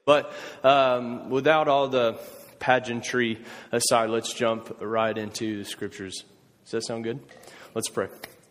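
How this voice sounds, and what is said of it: Country Southern accent, McConaughey-like. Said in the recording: “That accent that he was making fun of, I call that my Matthew McConaughey ... the countryest of you to volunteer, please, to come translate”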